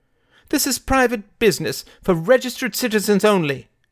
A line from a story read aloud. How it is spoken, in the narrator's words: cried Father Jones